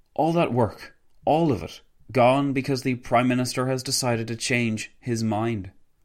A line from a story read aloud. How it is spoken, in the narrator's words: Wilson sighed loudly before exclaiming